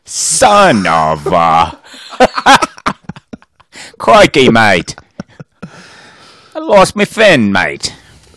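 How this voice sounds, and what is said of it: Put-on Australian accent. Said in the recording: “not Australian? ... Stop with that accent.”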